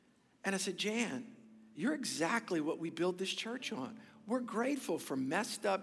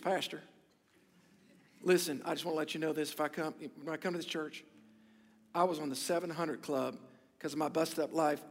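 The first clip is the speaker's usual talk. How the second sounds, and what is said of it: Put-on slight country accent. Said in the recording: “she's got a little accent, a little country accent, don't judge me”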